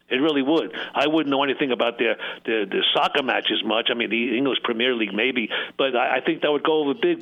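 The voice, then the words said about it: New York Brooklyn accent. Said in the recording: “my accent, which I never thought I had, but my New York Brooklyn twang”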